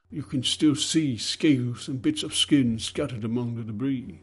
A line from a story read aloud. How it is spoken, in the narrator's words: sighed the overseer